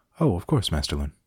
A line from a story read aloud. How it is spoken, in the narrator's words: Terence said cheerfully